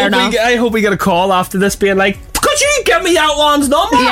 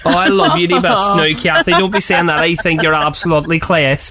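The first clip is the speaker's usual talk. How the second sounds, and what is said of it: Put-on Derry accent, slipping Scottish. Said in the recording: “Your Derry accent, that's such a good accent thing... I went half Scottish. Went class. Half Scottish”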